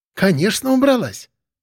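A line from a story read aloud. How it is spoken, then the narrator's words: Hostess, joyful. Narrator (Russian): радостно известила хозяйка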